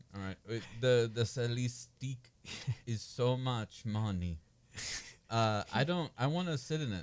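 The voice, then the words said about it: Poor French accent, sounds drunk. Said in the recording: “Your French accent... You sound more Indian, but carry on... you sound like a French guy who's impaired... a little drunk and in pain”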